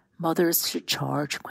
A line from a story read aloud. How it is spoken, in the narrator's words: Quentin said, yawning